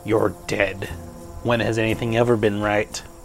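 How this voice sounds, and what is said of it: Deeper character voice, no southern accent. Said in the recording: “Its voice changes. It still looks like Lazarus, but it gets a deeper voice. It loses the southern accent.”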